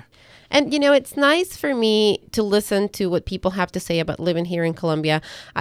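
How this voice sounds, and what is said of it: Ecuadorian Spanish-accented English. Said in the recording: “I'm originally from Ecuador. If you guys had not figured out by my accent that I am not, that I am not from here”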